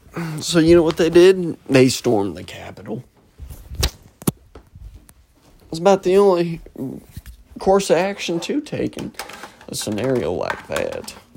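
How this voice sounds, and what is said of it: Exaggerated country accent. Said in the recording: “I got a fucking crazy country accent going today”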